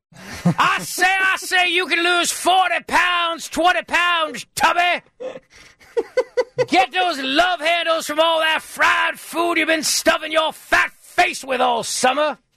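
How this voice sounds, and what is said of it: Put-on Southern accent. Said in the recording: “Should I do this in a Southern accent”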